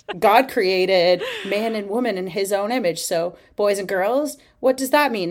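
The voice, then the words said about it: Poor put-on Australian accent. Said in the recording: “I can't do an Australian accent. Why am I trying?”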